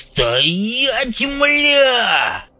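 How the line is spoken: Shrill voice. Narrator (Russian): В голосе главаря появилась визгливая нотка

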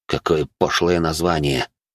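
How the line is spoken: Grumbling under breath. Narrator (Russian): буркнул он себе под нос

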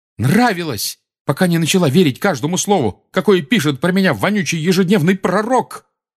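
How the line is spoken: Shouting, voice breaking. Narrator (Russian): крикнул Гарри срывающимся голосом

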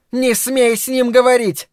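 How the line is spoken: Shouted. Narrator (Russian): закричала она

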